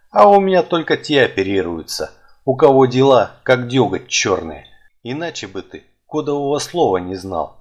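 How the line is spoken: Chuckling old man. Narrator (Russian): хохотнул старик

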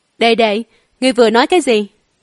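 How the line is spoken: Cold mocking. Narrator (Vietnamese): Hoa Mị lạnh lùng cười, xỉu cợt nói

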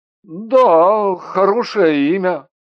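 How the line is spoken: Absent-minded grumble. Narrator (Russian): рассеянно буркнул Андрей

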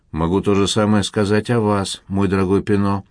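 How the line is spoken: Calm reply. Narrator (Russian): отозвался спокойно

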